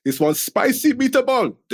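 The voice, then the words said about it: Shouted, bad Italian accent. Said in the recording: “I will shout out... My missus is Italian. She gets offended by me trying to do the really bad accent”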